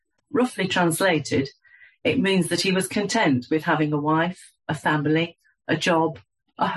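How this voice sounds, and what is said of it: Usual voice. Nothing is said of it.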